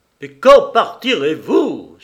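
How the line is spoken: Booming shout. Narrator (French): s'écria-t-il d'une voix de stentor

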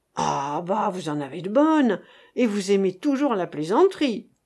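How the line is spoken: Exclaiming. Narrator (French): s'exclama Monsieur Florent

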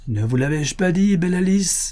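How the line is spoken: Shout with diabolical laugh. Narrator (French): cria l'homme à la barbe noire avec un rire diabolique

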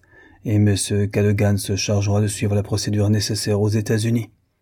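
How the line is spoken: Cold. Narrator (French): continuait Norton froidement

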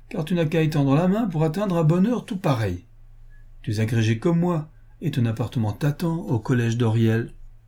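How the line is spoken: Laughing. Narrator (French): dit Wilkinson en riant

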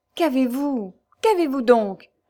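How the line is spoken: Passionate pleading young man. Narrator (French): répéta le jeune homme d'une voix passionnée et suppliante

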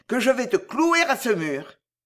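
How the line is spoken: Yelled. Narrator (French): hurla Bussy Leclerc

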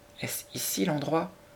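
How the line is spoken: Murmur. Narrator (French): murmura Sarah

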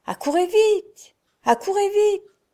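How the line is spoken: Loud shouting call. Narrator (French): Il appela bien haut, il cria

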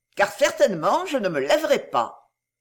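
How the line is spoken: Defiant reply. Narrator (French): répondit-elle d'un ton de défi

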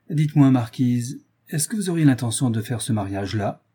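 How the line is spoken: Sly old man. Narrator (French): dit le vieux gentilhomme d'un ton futé

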